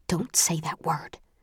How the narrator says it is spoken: hisses

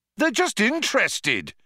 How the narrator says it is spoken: shouted Zaphod

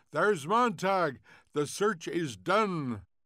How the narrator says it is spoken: A voice cried

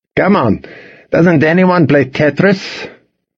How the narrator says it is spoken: the professor asked

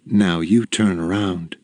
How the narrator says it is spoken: said

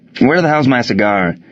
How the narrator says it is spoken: asked the manager

